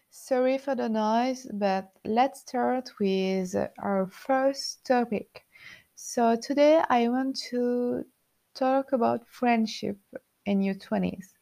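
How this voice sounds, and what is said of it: French accent speaking English. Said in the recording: “I'm just a French girl living in Paris... sorry for my accent”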